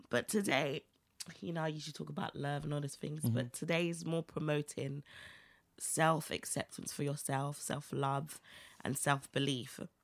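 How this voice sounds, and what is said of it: Hoarse, strained voice. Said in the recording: “my voice is gone”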